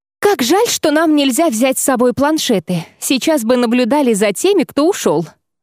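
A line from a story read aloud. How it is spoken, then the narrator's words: Sighing girl nearby. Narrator (Russian): вздохнула одна из девушек неподалеку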